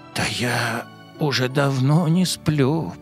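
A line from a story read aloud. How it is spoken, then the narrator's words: Whisper, little stream. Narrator (Russian): прошептал ручеек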